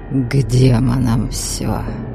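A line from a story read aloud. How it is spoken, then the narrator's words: Sudden resolute hiss. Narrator (Russian): вдруг прошипел наместник, словно только что пришел к какому-то весьма непростому решению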